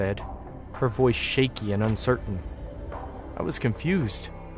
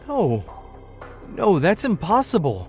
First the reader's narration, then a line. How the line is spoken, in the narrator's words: I stammered